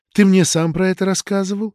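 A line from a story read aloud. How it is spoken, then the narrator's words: Unexpectedly tender. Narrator (Russian): неожиданно ласково заговорила Палашка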